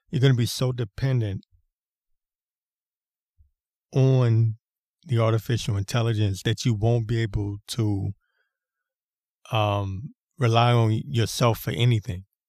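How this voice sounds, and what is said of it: Rough, strained voice. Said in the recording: “my voice is jacked up again.”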